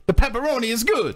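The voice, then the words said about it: Exaggerated Italian accent. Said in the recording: “I do a really good Italian accent. ... Like a ridiculous one.”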